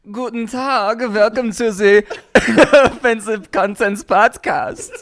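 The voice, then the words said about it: Put-on German accent. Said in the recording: “German accent? ... German's okay. ... German's down.”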